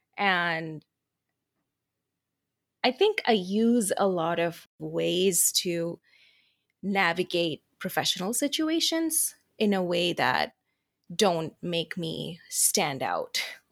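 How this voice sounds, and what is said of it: Westernized, Americanized accent. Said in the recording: “the accent that I'm talking in right now is what I consider my more westernized, Americanized accent”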